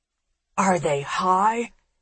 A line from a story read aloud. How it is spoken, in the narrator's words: she hisses